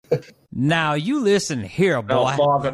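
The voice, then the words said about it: Southern cartoon rooster character voice. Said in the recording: “you're just doing Colonel Sanders. ... Foghorn Leghorn.”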